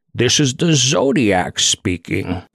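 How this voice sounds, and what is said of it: Bane-like impression voice. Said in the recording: “I channeled Bane in that impression”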